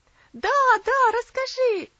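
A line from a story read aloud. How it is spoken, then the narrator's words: Children shouting. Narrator (Russian): закричали малыши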